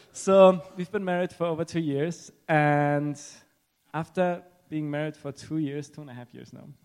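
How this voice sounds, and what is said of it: Non-native accented English. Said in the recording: “If you wonder why I have an accent”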